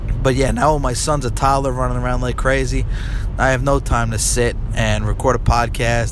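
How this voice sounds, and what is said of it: Raspy, stuffed-up congested voice. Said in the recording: “Sorry if you're going to hear some sniffling tonight, because if you can't tell, I'm stuffed up... My voice is raspy as hell”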